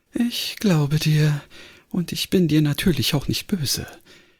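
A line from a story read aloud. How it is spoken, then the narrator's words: Deep sigh over loudspeaker. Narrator (German): Ein tiefer Seufzer drang aus dem Lautsprecher und dann sagte sie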